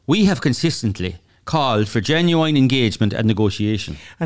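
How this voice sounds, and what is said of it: Poor put-on Irish accent. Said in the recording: “I'd like ... to lose the Irish accent. It's pretty bad.”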